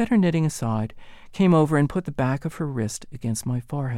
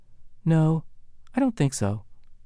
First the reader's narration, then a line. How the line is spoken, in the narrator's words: my mother said calmly